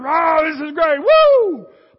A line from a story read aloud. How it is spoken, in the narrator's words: if you're the home team, you're shouting